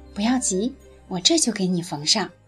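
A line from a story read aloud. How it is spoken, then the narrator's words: Soft and gentle. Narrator (Chinese): 姑娘轻声告诉小狗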